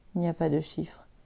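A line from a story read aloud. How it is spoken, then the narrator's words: Murmuring. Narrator (French): murmure Adélie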